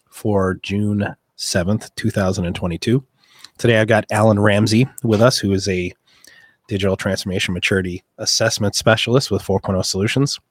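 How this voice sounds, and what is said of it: Rough, strained speaking voice. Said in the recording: “you guys are gonna have to forgive my voice ... I'm gonna use cough drops to try and soften the impact.”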